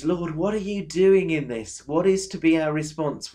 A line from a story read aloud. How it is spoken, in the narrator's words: We turn to him, we plead with him